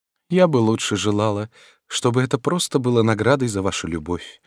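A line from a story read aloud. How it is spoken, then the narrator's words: Sad reply. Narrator (Russian): грустно ответила королева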